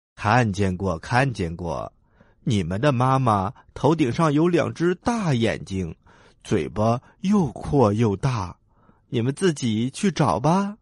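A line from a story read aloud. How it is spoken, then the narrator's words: Smiling, cheerful. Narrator (Chinese): 鸭妈妈笑着说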